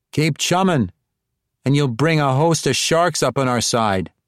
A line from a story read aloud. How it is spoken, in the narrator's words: Bonnie Charlie called out